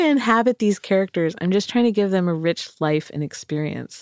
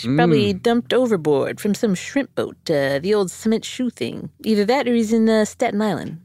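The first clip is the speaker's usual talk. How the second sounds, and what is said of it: Put-on New York accent. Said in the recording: “Okay, so we got a New York transplant in Key West. ... I want to apologize for all my accents right now ... Oh, those were accents?”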